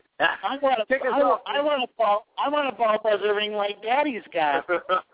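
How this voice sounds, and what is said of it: Little boy character voice. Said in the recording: “do your little boy voice”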